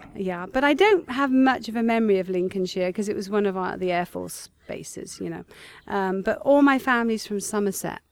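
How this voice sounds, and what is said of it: Mixed English accent, slight Somerset traces. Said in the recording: “There's certain words you say that there's that Zummerzat accent comes out a bit. ... I don't think I sound American or English. I think I've got this sort of accent that's come about from, you know, being a global person.”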